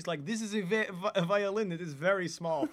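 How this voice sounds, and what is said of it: Put-on Russian accent. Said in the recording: “I don't know why I did a Russian accent”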